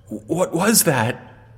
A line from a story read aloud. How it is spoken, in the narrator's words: whispered at me